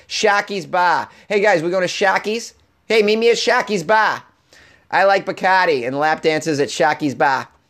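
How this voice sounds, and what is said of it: Put-on Boston accent. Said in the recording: “pronounced in with a Boston accent”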